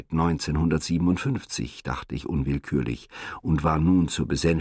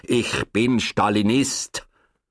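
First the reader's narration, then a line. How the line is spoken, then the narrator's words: Very stern interruption. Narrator (German): unterbrach Herr Jakob mein Gerede sehr streng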